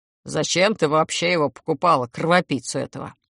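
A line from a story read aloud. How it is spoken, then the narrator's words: Grumbling. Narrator (Russian): буркнул Атани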